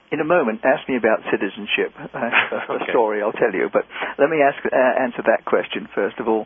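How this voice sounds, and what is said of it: London-born, non-American accent. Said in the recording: “you were born in London. Your accent suggests to our listeners you are not a native United States citizen”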